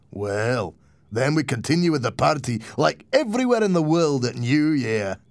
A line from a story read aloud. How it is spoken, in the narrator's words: Martin laughed